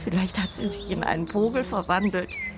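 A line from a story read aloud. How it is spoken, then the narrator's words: Nervous giggling. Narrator (German): sagt Jenny und kichert nervös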